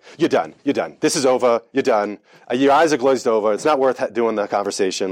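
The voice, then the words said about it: Imitated Long Island accent, weak attempt. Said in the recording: “a mentor, that was from Long Island ... I try to, sort of do his accent, but I can't do it that well”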